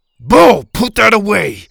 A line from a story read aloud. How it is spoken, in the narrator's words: Kirby shouted